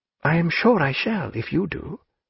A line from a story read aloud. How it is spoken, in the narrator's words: said Diana, in a doubtful voice